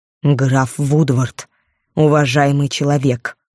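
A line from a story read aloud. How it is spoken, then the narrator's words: Said through teeth. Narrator (Russian): процедила леди Ребекка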